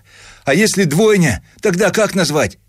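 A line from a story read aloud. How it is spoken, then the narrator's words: Loud shout across room. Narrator (Russian): крикнул он на весь отдел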